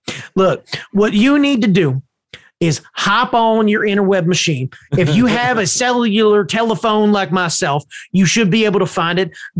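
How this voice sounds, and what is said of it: Put-on accent. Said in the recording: “this accent”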